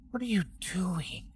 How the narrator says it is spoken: Samuel whispered

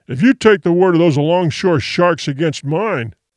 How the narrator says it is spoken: began thickly

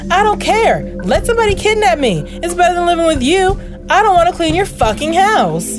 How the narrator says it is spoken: the girl screams back

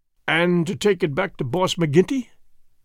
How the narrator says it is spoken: said Morris bitterly

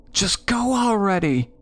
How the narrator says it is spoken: my sister hollered in my ear

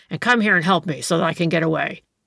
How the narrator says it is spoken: growled the other

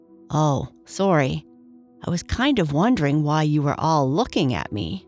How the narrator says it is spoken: Lucy said

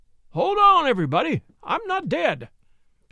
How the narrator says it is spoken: cried out, with stormy countenance

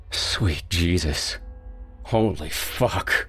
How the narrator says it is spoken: moaned

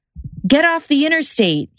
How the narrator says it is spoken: he yelled

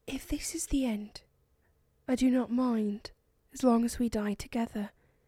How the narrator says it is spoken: Eleanora whispered

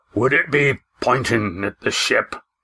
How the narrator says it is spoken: Roaring Jack asked

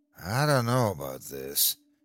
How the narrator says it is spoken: he moaned to his sister

